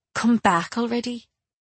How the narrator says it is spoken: I muttered at the empty lot

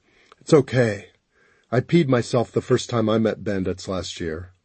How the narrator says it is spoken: I said softly

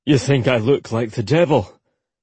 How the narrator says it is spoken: he asked stiffly, completely taking her words the wrong way

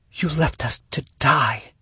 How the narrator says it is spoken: she whispered

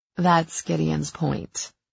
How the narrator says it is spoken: I said dryly

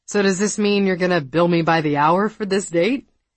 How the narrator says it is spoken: Katie forced a laugh

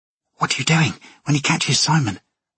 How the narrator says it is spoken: Alexa hissed

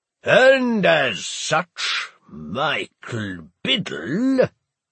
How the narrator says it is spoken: Walter sneered disdainfully

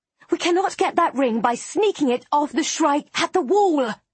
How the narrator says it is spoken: I hiss at her

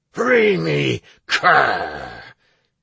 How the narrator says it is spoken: he spat out with undisguised hate

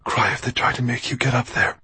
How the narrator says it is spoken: she had whispered to the little ones

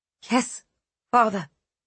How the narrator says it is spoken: she said quietly

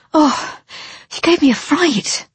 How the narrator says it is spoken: I gasped

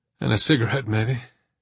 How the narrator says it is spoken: Dominic chuckled

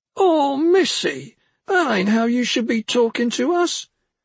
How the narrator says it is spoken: the knife man was whining

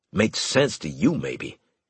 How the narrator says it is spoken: Harris grumbled

